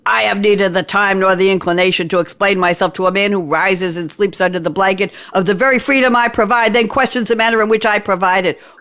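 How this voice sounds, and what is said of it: Yelled movie quote, gruff imitation. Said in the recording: “I'm not gonna try and do a Nicholson impersonation, but I just want to yell it ... I said I wouldn't try, but how was that?”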